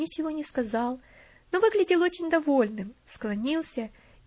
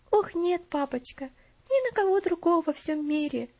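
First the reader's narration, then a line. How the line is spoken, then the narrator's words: Agitated, excited. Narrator (Russian): взволнованно ответила она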